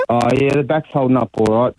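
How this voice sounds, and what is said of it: Sarcastic delivery. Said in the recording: “you're being sarcastic ... I've been very sarcastic”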